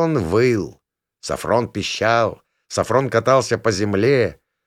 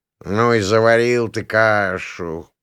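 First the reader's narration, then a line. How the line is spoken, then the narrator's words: Grumbling. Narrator (Russian): проворчал Шайн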